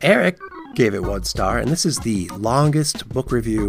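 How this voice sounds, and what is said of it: Usual voice. Nothing is said of it.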